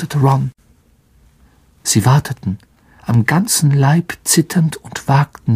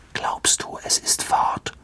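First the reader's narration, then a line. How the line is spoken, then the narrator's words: Whisper. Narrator (German): flüsterte Ron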